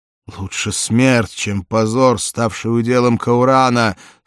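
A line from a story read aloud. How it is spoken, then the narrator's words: Moaning. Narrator (Russian): стонал Валерий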